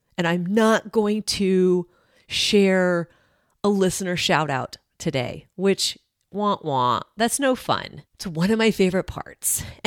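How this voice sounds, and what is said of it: Strained, unwell voice with cough. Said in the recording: “I'm even going to spare you from my voice ... the more I talk, the more my throat wants to cough ... I'm hoping, fingers crossed, that next week my voice is back”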